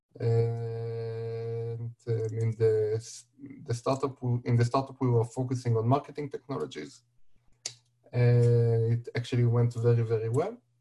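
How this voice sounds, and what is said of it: Hebrew accent. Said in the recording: “you have Hebrew accent ... it's ultra noticeable”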